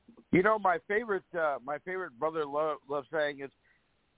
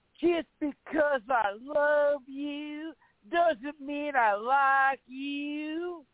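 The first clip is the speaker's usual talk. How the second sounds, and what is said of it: Imitates another person's voice. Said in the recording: “it's going to be a bad impression ... That's not bad, actually.”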